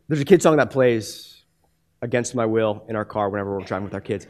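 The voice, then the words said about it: Voice giving out, hoarse. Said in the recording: “sorry, my, my voice is, is gone.”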